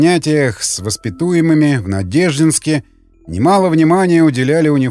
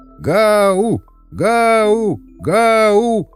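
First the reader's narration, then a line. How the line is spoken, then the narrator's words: Crowd yelling. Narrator (Russian): орала толпа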